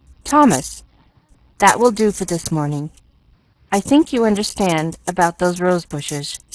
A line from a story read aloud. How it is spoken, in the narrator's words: she said stiffly